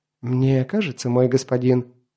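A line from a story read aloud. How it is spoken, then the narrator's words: Ingratiating, insinuating tone. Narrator (Russian): вкрадчиво начал карлик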